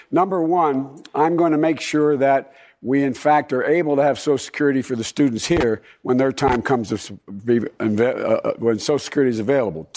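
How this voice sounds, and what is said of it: Slightly hoarse voice. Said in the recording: “I've been talking too much, a little hoarse.”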